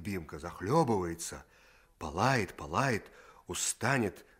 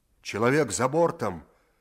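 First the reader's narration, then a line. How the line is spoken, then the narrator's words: Shouted. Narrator (Russian): закричал боцман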